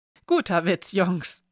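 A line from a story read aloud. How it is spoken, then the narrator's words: Calling with uncertain laugh. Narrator (German): rief Zachary Hill … mit einem unsicheren Lachen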